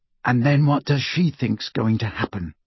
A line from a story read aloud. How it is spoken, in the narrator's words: Harry muttered